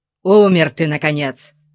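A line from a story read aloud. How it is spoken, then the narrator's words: Barked. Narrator (Russian): рявкнул Конан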